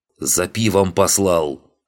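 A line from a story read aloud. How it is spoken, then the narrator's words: Growling. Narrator (Russian): прорычал кузнец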